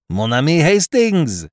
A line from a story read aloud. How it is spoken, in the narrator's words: He cried